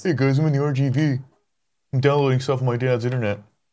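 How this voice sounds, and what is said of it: Good impression of a friend. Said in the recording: “So that's a good Andy impression too.”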